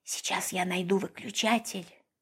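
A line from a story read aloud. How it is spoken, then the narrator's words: Whispered promise. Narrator (Russian): шепотом пообещал Федор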